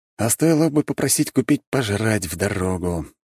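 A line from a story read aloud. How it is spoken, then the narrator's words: Sighing. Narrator (Russian): вздохнул я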